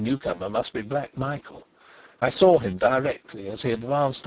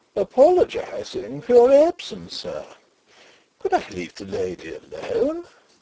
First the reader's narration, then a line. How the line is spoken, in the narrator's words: said in his loud, merry tones